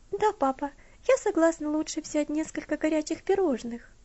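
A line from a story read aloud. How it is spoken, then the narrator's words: Timid request. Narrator (Russian): робко попросила Элси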